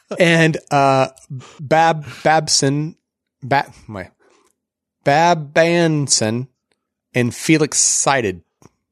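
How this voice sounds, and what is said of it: Slight put-on Southern drawl. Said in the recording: “you put a little southern drawl on that Bab Banson. That oh. was good.”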